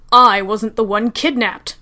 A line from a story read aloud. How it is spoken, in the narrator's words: Sherlock snapped, harsher than was strictly necessary